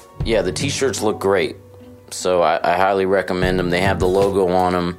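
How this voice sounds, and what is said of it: Slightly ragged, worn voice. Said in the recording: “my voice is a little ragged from the tour”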